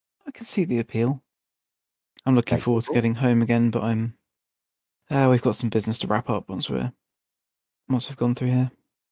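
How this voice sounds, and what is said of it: Northern regional accent. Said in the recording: “You're a long way from home. By the accent ... Way up north is where I think you're from”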